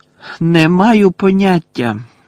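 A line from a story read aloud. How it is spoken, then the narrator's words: Loud. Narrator (Ukrainian): голосно відповів Гаррі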